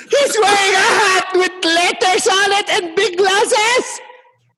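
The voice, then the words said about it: Imitates another person's voice. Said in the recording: “I'm doing the worst impersonation of my sister right now.”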